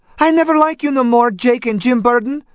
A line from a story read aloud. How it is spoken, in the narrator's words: Antonia panted